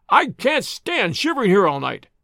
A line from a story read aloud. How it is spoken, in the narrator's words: cried the voice